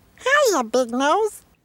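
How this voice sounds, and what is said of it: Tiny baby voice, bad Donald Duck. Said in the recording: “to do a tiny baby voice ... Somebody doing a very bad Donald Duck”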